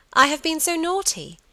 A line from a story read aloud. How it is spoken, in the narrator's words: she exclaimed